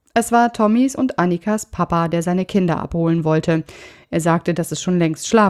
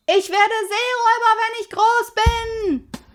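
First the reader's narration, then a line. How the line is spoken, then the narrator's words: Called out. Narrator (German): rief Pippi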